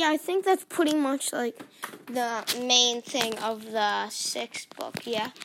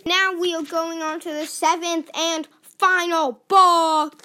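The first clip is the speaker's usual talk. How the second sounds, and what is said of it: Said loudly. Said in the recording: “Why did I say that so loudly?”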